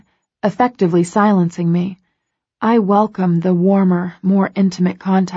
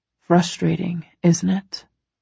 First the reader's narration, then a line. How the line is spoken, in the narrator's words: murmurs